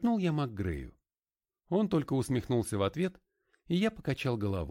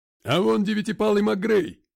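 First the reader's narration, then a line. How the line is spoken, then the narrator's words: Shouted from gallery. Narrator (Russian): крикнул кто-то с галерки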